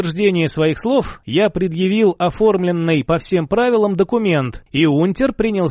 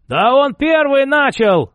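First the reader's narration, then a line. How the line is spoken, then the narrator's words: Yelling stocky man. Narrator (Russian): заорал крепыш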